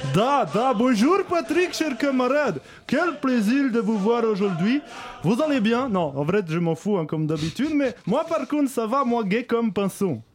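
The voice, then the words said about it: Bad fake Russian accent. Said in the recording (French): “pourquoi vous parlez avec un accent russe tout pourri ... ce putain d'accent russe”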